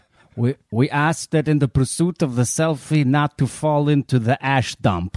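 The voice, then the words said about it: Bad put-on Russian or Italian accent. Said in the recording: “So I'm taking it's a Russian story, or the worst Italian accent I've ever heard.”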